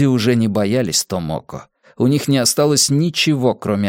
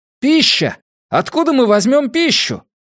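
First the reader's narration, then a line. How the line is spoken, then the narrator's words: Shouting. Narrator (Russian): крикнул кто-то еще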